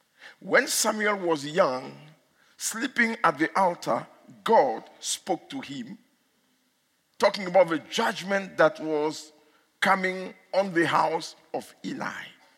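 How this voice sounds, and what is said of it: Speaks English with an accent. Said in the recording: “If you don't hear my accent, then it's too bad ... they don't talk to me about my accent, only in South Africa”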